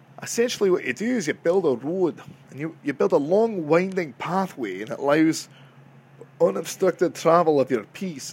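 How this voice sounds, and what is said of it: Scottish accent. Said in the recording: “It's very Chinese for a Scottish accent”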